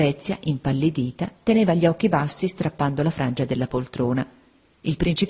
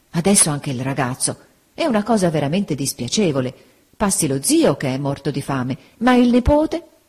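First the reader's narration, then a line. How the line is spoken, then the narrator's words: Dismayed exclamation. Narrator (Italian): Don Mariano, con aria costernata, esclamò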